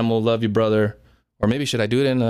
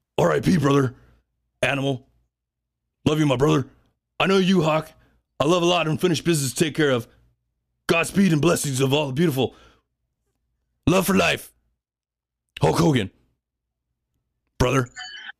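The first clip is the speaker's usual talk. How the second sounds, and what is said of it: Poor imitation of another person's voice. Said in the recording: “in a Hulk Hogan voice... That's my poor impression.”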